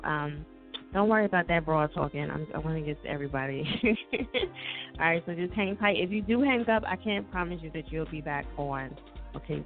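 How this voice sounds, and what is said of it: Strained, fading hoarse voice. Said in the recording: “I'm like in the process of losing my voice ... I just can't do it. My voice is like”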